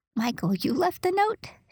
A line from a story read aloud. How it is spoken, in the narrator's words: She exclaimed